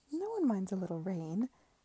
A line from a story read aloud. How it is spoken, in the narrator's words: said Mary in her usual placatory tones